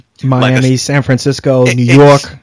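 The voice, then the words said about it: Put-on New York accent. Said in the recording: “you like that New York accent at the end?”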